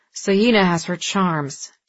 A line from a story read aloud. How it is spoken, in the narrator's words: Dex said through gritted teeth